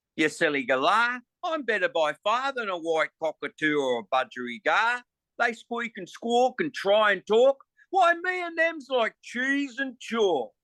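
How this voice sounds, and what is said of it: Put-on Australian accent. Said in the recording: “I'm going to give you a performance of it right now with the Australian accent. ... note that I'm an Englishman, so I find amusement in speaking like this.”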